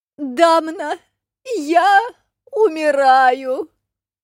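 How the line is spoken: Theatrical moaning. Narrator (Russian): наигранно стонала сирена

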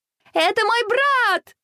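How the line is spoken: Distant shouting female voice. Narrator (Russian): закричала из зала Василиса

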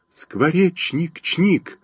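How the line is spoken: Joyful chirping sparrow. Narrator (Russian): зачирикала радостно воробьиха

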